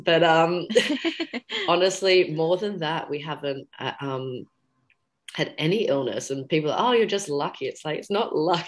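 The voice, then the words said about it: Hoarse, croaky voice. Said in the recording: “I'm just recovering from a cold at the moment. You can hear my sexy voice.”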